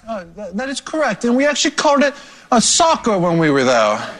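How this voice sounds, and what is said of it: Put-on London accent. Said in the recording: “What's going on with that accent? ... that's my London accent.”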